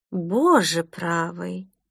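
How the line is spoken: Muttered. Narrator (Russian): пробормотала Селеста

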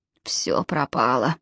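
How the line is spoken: Muttering. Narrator (Russian): пробормотал Джалабин

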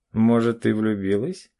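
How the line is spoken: Father's short chuckle. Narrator (Russian): хохотнул отец

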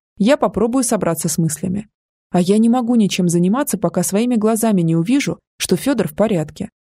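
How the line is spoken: Plain. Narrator (Russian): сказала Ася

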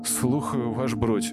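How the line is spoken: Glum reply. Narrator (Russian): уныло ответствовал Митя

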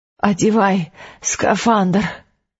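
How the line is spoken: Hoarse, out of breath. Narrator (Russian): просипел он, пытаясь отдышаться

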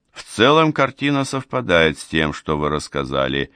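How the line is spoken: Gloomy. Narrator (Russian): мрачно кивнул

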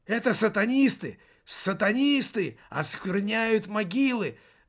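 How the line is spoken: Hysterical shout from hiding. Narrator (Russian): выкрикнул из-за дерева истерический голос

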